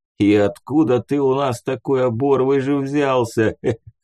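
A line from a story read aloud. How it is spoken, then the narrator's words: Laughing bearded man. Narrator (Russian): хохотнул бородатый мужик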